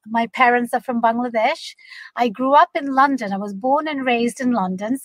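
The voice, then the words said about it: British-American accent. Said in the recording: “if you've tuned into my accent, I am a British American”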